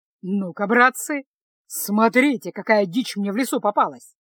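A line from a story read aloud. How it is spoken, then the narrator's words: Pleased announcement. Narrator (Russian): Довольным голосом объявил разбойник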